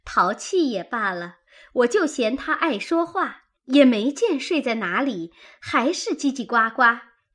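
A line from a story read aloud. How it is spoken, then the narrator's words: Laughing. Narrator (Chinese): 迎春笑道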